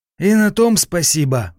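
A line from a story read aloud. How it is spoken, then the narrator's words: Sighing, over the phone. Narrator (Russian): вздохнул капитан на том конце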